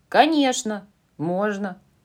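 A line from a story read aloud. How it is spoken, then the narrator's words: Plain. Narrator (Russian): сказала Джо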